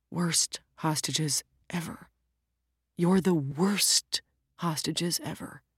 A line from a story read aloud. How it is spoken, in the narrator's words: The bank robber was left alone in the hall, clutching the pistol and muttering quietly